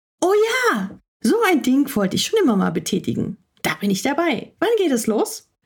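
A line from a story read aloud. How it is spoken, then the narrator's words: Asked very excitedly. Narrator (German): fragte Hemmi ganz aufgeregt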